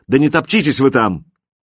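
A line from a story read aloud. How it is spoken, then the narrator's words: Shouting while moving. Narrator (Russian): Катя крикнула на ходу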